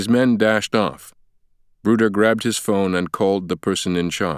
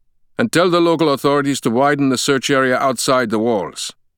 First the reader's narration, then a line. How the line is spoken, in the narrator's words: Bruder snapped